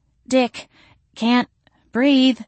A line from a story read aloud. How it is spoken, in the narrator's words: she wheezed